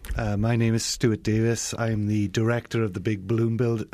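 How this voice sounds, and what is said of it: Welsh accent. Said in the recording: “you can probably tell I'm not from Colorado ... I'm from a little country called Wales, which is in the United Kingdom”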